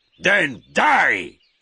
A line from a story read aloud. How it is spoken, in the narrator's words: shouted Magua